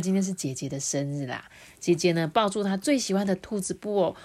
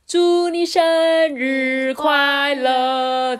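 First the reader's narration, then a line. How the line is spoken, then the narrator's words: Loud group chorus. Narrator (Chinese): 大家一起对姐姐大声的说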